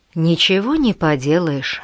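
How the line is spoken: Sighing. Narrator (Russian): вздохнул Том

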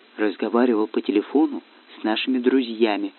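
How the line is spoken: Whispered. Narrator (Russian): шепотом сообщил Сева, хотя никого из врагов поблизости не было

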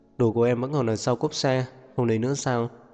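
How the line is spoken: Sighing. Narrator (Vietnamese): Diệp Uyên thở dài

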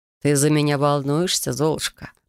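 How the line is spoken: Purring. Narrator (Russian): промурлыкал Трей

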